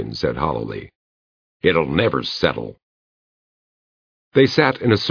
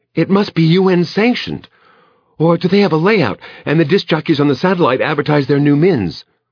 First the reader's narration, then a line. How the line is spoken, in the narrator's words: Fran said excitedly